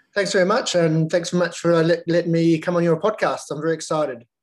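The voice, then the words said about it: Slight New Zealand accent. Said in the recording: “he's got a little bit of an accent. So he's a Kiwi originally.”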